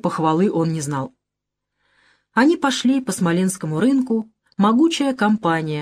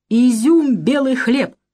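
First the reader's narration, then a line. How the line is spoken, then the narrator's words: Exclaiming. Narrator (Russian): воскликнул Витька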